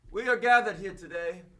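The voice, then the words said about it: Put-on highfalutin British accent. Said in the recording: “Is that an accent? ... Oh, you British all of a sudden? ... Highfalutin British guy”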